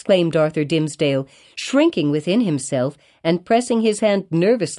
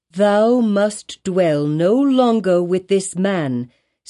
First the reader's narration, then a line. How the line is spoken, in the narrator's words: said Hester slowly and firmly